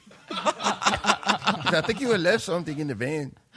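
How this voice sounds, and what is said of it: Exaggerated put-on Mexican accent. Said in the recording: “my offensive Mexican accent ... That's not at all what the guy sounded like”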